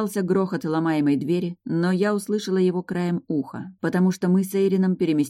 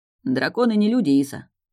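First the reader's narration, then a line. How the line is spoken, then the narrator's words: Snort. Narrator (Russian): хмыкнул Эйрин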